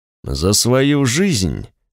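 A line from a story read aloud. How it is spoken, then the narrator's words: Thoughtful colonel's mutter. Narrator (Russian): задумчиво пробормотал полковник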